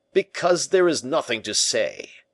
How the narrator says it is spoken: said the giant in a stentorian voice

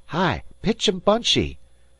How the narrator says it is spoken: shouted Dan

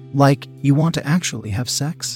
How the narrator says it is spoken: I stuttered anxiously

